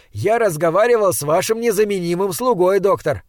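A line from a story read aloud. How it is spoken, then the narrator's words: Cheerful shout. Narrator (Russian): жизнерадостно крикнул в ответ Хок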